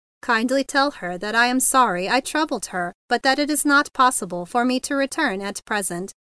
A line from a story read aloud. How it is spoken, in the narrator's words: he answered stiffly